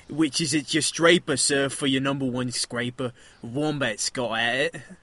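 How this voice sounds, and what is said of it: Lower class English accent. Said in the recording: “kind of a lower class English accent ... I bet you can nail it ... Well English, mate”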